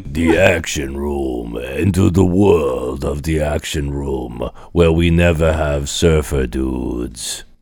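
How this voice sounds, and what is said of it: Exaggerated action-movie trailer voiceover accent. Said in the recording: “Why is he like Italian? ... trying to combine the Schwarzenegger accent with the really weird voiceover accent that guy did in the new trailer”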